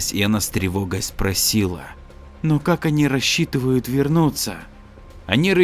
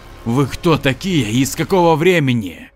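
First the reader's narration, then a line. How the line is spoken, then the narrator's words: Hysterical laughter. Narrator (Russian): Раненый боец истерически захохотал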